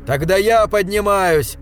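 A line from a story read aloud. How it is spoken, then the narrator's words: Desperate trembling shout. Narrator (Russian): В отчаянии выкрикнул я и, дрожа крупной дрожью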